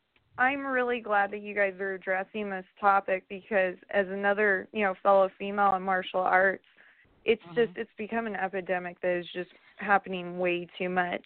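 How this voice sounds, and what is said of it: Hoarse, partly lost voice. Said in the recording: “My voice is a little hoarse. ... I'm sorry if my voice is a little out. I lost it this week.”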